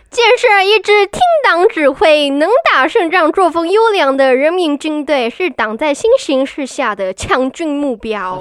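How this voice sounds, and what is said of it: Put-on mainland Chinese accent. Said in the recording (Chinese): “我不太会中国口音啊，你可不可以 ... 麻烦你？”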